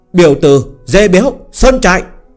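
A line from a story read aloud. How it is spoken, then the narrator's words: Sharp yell. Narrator (Vietnamese): Phương Hành liền hét lên một tiếng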